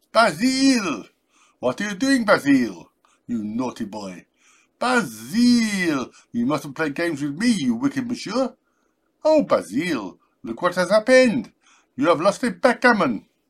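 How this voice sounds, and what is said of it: Heavy put-on French accent. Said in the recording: “Try it with a heavy French accent.”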